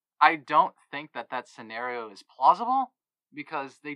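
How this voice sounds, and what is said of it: Usual voice. Nothing is said of it.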